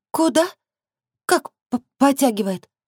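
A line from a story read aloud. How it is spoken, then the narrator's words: Shy babble. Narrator (Russian): Пролепетала Стешка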